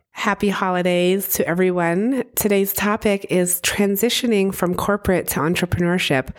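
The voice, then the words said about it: Very scratchy, hoarse voice. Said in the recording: “my voice is really, really scratchy today. I'm getting over a little cold”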